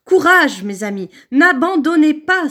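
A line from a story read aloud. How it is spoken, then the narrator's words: Exclaiming. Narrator (French): s'écria-t-elle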